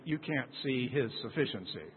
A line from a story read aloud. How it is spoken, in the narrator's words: he mumbled